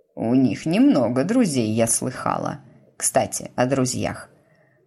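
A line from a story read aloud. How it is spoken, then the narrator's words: Falsely casual tone. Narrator (Russian): продолжила она фальшиво-небрежным тоном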